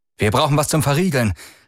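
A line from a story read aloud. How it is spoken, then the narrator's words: Calling out. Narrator (German): rief er und stemmte sein ganzes Gewicht gegen die Tür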